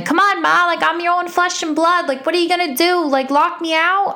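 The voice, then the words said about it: Deliberately poor New York accent. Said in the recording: “that was my terrible impression of a New York accent.”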